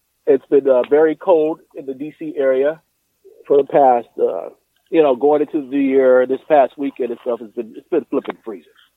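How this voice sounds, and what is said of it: Sick, under-the-weather voice. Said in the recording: “You sound like you're sick. You sound like you're sick there. You don't sound good.”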